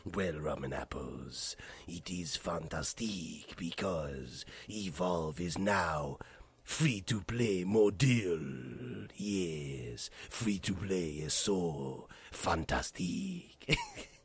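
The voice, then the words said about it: Deep gravelly imitation of another's accent. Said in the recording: “What a deep, deep, gravelly, manly voice you have ... fantastique to you in your lovely Alberto Del Rio impersonation ... Really bad Alberto Del Rio accent”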